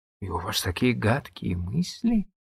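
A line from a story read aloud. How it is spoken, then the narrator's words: Bewildered. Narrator (Russian): растерянно сказала Сюзанна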